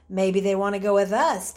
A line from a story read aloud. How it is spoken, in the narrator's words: Timothy said with a chuckle